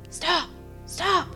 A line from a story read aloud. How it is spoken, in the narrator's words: replied in a harsh whisper